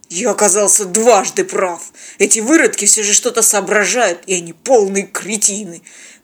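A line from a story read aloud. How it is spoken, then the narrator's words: Contemptuous mutter feigning bravado. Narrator (Russian): Храбрясь, презрительно пробормотал работорговец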